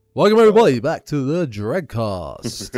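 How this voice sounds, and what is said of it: Announcer-style radio voice. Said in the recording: “So I tried to put my radio voice on. ... You've got your radio voice.”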